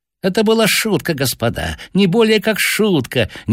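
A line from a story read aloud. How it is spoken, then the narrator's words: Nonstop squealing. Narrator (Russian): не переставая визжал он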